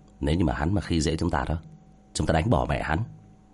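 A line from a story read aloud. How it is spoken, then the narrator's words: Soft scornful snort. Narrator (Vietnamese): Giang Thiên Bạch khẽ hừ một tiếng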